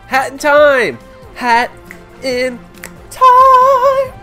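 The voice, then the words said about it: Suddenly very high-pitched shouting. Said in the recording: “my voice went really high there. I did not expect that.”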